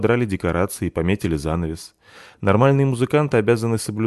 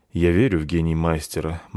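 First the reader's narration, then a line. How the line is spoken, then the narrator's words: Gloomy. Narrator (Russian): мрачно сказал пан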